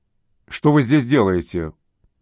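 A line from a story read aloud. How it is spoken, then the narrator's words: Stern question, voice cracking. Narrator (Russian): спросил строгим голосом, сорвавшимся на последнем слове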